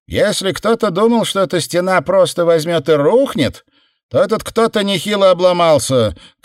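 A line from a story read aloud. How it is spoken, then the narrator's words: Shouted to others. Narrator (Russian): крикнула она остальным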